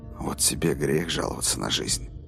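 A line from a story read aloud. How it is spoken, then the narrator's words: Whispered. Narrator (Russian): прошептал Роланд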